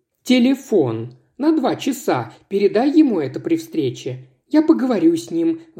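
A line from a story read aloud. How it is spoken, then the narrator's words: Sighed. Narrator (Russian): вздохнула Анастасия Георгиевна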